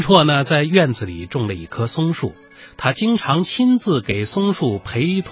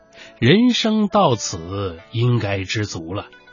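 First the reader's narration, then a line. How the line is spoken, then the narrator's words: Sighing reflectively. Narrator (Chinese): 他时常发出这样的感叹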